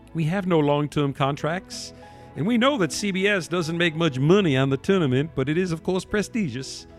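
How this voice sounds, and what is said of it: Put-on Southern American accent. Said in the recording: “my southern cracker accent.”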